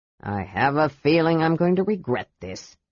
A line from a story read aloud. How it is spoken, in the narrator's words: Flint muttered into his beard